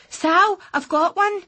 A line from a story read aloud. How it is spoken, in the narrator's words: shouted